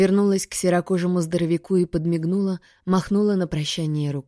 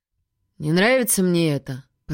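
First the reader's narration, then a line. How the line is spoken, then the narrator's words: Grumbling. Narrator (Russian): проворчал Норман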